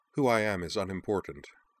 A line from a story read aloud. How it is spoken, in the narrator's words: Izumi replied, her voice low and even